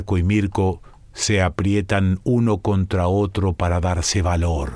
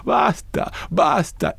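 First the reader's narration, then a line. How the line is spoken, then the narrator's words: Pleading. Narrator (Spanish): imploran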